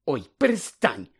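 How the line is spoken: Irritated grumble. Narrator (Ukrainian): роздратовано буркнула Герміона

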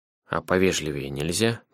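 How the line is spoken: Grumbled. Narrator (Russian): пробурчал он

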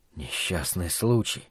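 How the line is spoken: Near whisper. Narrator (Russian): повторил Стью чуть ли не шепотом

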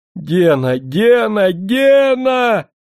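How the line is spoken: Hysterical shouting. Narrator (Russian): кричал в истерике несчастный профессор

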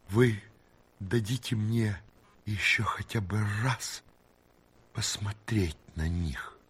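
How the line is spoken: Pleading question. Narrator (Russian): граф умоляющим голосом спросил

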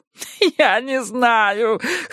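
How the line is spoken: Whining. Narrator (Russian): хныкал Петер

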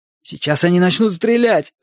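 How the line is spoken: Panicked exclamation. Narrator (Russian): в панике воскликнул Сет

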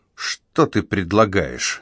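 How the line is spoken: Dry, authoritative question. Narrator (Russian): сухо спросил он, подчеркивая, что решение остается за ним

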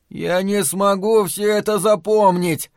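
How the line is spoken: Groaning. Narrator (Russian): застонал Том

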